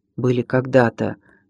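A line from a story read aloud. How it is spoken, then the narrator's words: Quiet. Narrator (Russian): негромко отозвался Голован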